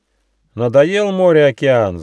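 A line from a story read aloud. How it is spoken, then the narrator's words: Roaring wind laughter. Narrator (Russian): захохотал ветер муссон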